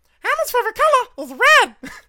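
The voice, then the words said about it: Elmo character voice. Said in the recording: “it's actually my Elmo impression ... now you got to show us”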